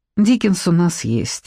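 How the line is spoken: Sighing. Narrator (Russian): вздохнула Надежда Николаевна

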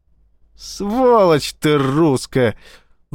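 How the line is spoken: Howling. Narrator (Russian): взвыл Эссекс

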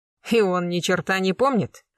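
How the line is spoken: Snort. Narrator (Russian): хмыкнул полосатик Блистанов

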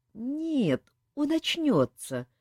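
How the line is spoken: Uncertain reply. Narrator (Russian): неуверенно ответила девушка

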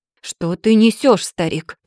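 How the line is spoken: Growl. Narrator (Russian): прорычал Сигурд

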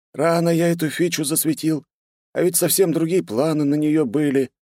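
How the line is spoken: Speaking, then groaning. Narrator (Russian): Сказал и застонал

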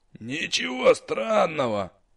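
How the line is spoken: Cockroach snorting. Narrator (Russian): фыркнул таракан

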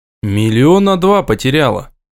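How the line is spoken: Gruff mutter. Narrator (Russian): буркнул я девушке

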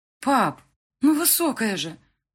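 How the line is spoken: Exclaiming. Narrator (Russian): воскликнула

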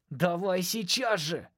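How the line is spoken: Yell. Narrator (Russian): заорал

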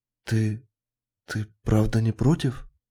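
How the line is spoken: Barely audible question. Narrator (Russian): спросила она еле слышно

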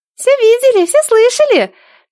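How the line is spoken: Squeaky little girl's voice. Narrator (Russian): пискнул девчоночий голосочек у Нелады в косе

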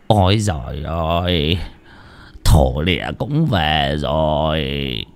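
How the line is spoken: Muttering. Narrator (Vietnamese): Cụ tứ miệng lẩm bẩm

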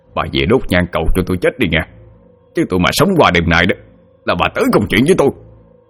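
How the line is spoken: Angry speech. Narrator (Vietnamese): tức giận nói

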